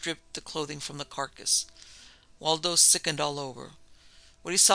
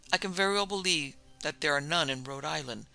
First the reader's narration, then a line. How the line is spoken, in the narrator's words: the consul said gravely